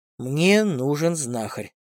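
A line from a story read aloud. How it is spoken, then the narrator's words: Through gritted teeth. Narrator (Russian): процедил Костиков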